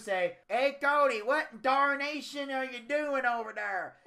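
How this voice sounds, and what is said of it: Exaggerated Southern hillbilly accent. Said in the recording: “I didn't speak in fucking hillbilly English ... Not all of us sound like that who are from the fucking South.”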